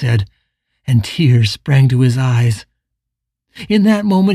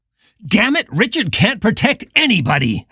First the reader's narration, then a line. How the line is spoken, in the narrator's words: Howard shouted, and then quickly quieted his voice